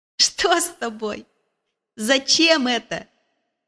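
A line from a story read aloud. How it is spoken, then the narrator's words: Laughing. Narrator (Russian): засмеялась Барбара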